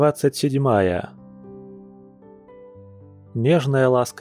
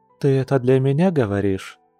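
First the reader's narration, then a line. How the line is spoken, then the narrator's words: Soft chuckle, she-bear. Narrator (Russian): мягко хмыкнула медведица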